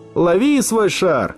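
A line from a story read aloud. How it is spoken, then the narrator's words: Laughing shout. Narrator (Russian): крикнул Ники со смехом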